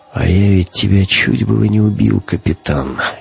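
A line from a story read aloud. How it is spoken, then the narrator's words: Quiet. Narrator (Russian): негромко сказал Гумилев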